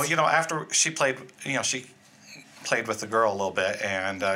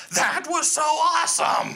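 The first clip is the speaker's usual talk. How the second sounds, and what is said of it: Impression of his wife's excited voice. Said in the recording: “his impression of you”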